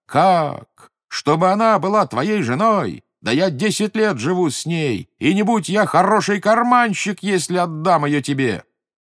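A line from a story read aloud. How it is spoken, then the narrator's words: Furious shouting. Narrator (Russian): И пришел тот Мемет в ярость и закричал на собеседника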